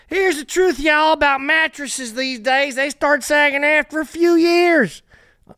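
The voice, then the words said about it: Poor attempt at Southern accent. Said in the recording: “Now I'm going to talk the way I should talk with this hat... Untalented. I can't even do a southern accent.”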